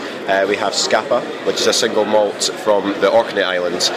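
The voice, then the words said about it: Mild Scottish accent. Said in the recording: “I'm from the southeast of Scotland, just south of uh, Edinburgh, uh, very near the English border. So that's why my accent's slightly uh, less strong than most Scottish accents”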